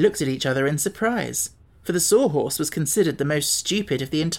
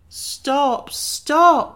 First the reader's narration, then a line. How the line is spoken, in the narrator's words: cried the Pumpkinhead